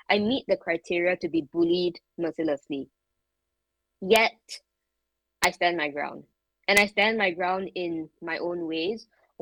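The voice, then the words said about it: Foreign accent. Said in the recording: “this is a foreigner ... she has a funny accent.”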